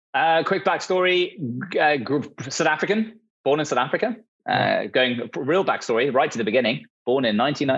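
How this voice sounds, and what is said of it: British accent. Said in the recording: “hence the British accent”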